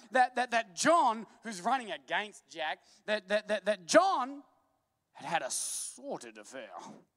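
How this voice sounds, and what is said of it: Brief put-on British accent. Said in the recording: “you can't say sordid without a British accent”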